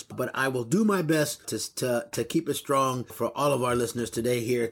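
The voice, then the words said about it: Strained voice cutting in and out. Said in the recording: “apologize for my voice because my voice is going to go in and out”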